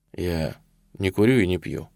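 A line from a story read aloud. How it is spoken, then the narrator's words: Quiet speech. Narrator (Russian): он тихо сказал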